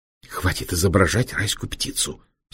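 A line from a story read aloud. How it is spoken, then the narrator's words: Angry hiss. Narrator (Russian): сердито прошипел доктор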